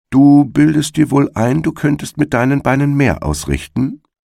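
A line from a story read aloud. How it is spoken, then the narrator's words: Plain. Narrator (German): sagte er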